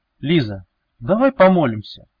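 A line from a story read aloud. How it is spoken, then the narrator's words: Sudden gentle fatherly tone. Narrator (Russian): внезапно произнес Велес, ласково, почти по-отечески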